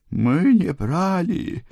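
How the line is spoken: Tearful moan, mother. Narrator (Russian): простонала ее мать, на миг прекратив реветь

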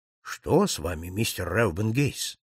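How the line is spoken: Calm objection. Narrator (Russian): спокойно возразил Холмс

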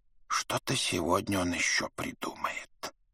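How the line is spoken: Whisper. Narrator (Russian): прошептал другой

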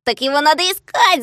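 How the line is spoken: Shouting. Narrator (Russian): закричал Клёпка

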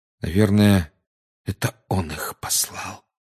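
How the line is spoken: Quiet. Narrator (Russian): тихо сказал Гарри

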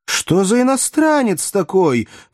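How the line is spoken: Loud flustered exclamation. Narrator (Russian): в смятении воскликнула Маргарита так громко

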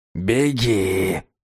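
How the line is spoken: Whisper from tiny figurine. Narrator (Russian): прошептал Вати из крошечной умильной фигурки

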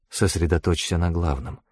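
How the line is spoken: Whisper. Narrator (Russian): шепнула Анхель

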